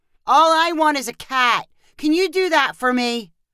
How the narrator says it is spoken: Lincoln said loudly

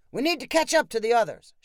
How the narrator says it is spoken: shouted Sylvester

